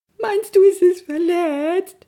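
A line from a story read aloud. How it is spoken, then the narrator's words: Sobbing. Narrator (German): schluchzte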